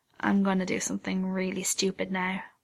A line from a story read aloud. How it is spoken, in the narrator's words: Sid murmurs a quiet